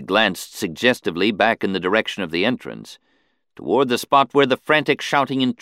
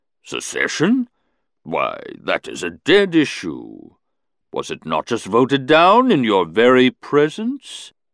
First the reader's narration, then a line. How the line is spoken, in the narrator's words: he boomed softly